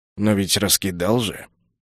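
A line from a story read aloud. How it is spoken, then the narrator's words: Sigh. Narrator (Russian): Я вздохнул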